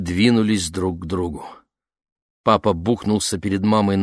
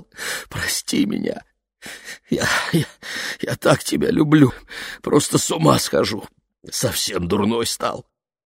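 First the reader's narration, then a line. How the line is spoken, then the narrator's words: Sobbing. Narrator (Russian): разрыдался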